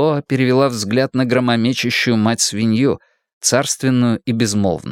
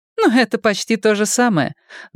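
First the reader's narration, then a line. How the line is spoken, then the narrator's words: Laughing. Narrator (Russian): Демло рассмеялась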